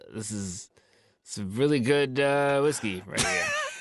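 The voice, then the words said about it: Imitates another person's voice. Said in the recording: “your Matt Brousseau impression ... That was a master class in impressions right there.”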